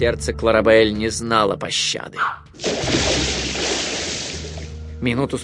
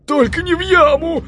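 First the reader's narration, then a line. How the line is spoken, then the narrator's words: Pleading, several voices. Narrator (Russian): взмолились братья Гафс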